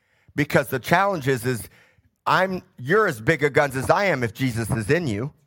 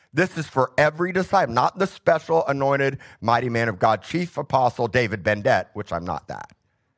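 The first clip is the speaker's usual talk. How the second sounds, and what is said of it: Sarcastic tone. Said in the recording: “I'm being sarcastic.”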